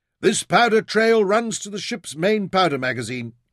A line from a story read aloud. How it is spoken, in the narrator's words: he shouted